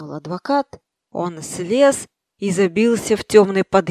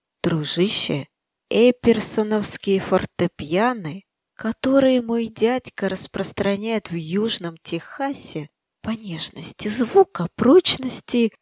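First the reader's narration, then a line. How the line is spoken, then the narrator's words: Whisper. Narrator (Russian): вагоновожатый наклонился к нему и шепнул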